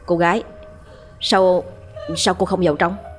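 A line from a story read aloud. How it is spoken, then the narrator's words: Stammered question. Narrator (Vietnamese): Thằng Cổ mới lắp bắp hỏi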